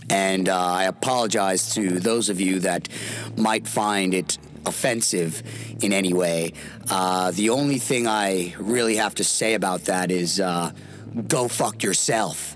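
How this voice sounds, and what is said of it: Rough, worn-out voice. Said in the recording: “my voice is real fucked up from the weekend”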